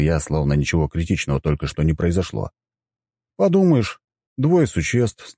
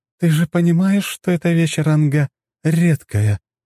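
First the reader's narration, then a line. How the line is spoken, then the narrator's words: Strange-voiced question. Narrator (Russian): странным голосом спросила Сафелия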